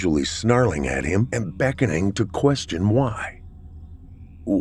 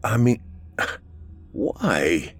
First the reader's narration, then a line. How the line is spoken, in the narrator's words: He stuttered and tried to ask his father